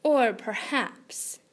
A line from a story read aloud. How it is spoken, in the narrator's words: said, softly sneering